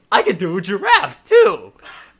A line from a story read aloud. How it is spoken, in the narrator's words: With a loud chuckle, exclaimed